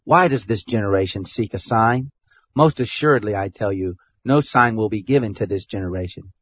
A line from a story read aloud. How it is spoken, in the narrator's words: He sighed deeply in his spirit and said